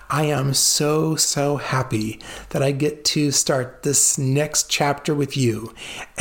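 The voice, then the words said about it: Smiling, happy-sounding voice. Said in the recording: “I am smiling from ear to ear. Can you hear the smile in my voice?”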